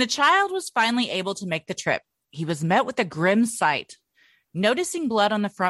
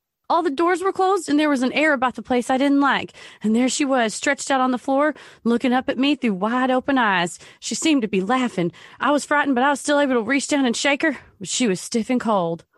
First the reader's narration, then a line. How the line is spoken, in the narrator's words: the child exclaiming